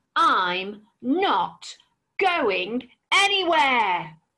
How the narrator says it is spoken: roared the dragon

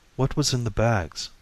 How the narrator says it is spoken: she asked softly

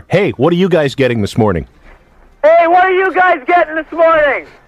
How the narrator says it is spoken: yell to the other car

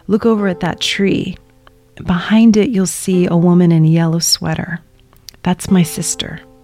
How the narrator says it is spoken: my dad whispers to me

